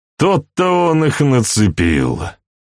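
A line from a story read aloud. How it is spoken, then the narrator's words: Sigh. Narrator (Russian): вздохнул Эндрю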